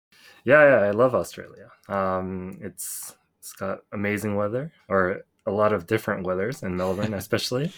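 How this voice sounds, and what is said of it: American-sounding English accent. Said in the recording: “I'm impressed by your accent. It sounds very American.”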